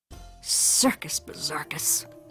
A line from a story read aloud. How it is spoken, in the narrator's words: muttered Mama